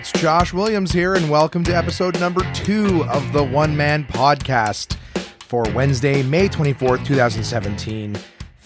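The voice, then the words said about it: Voice not fully recovered, strained. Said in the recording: “My voice is coming back. ... It's not back 100%, but I'm happy to be able to talk a little bit better.”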